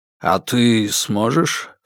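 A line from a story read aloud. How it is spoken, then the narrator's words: Low-voiced question. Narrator (Russian): вполголоса поинтересовался у меня Алексеич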